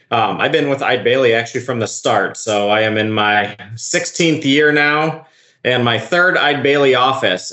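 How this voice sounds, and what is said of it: Upper Midwest accent, long A's. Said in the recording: “As you can tell from my accent, it is not Oklahoma original ... previously I was up north with in Minneapolis, and then closer to where Ashley is in Fargo. So I can still drop some O's in there and some long A's.”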